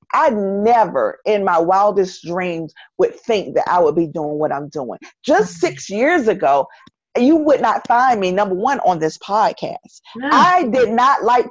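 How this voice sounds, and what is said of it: Southern US accent. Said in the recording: “I was ashamed of my Southern accent ... I sounded, and I'm doing air quotes, country”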